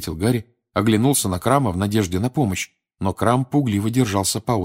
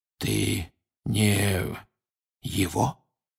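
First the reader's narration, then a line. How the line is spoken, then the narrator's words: Barely audible murmur. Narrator (Russian): еле слышно проговорил Крауч, почти не шевеля губами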